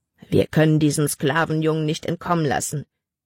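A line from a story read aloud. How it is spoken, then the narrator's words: Growl. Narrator (German): knurrte ein anderer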